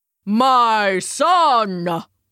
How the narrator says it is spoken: he boomed

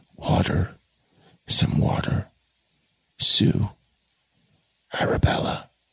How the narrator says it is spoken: he coughed to exhaustion again, saying still more feebly

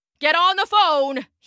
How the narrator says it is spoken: he shouted

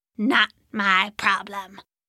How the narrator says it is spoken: the Plaxen growls back

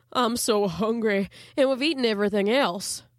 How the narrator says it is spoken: he replied mournfully

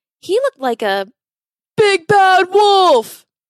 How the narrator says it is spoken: Henry cried out in a panic

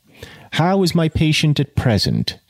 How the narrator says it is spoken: asked the physician

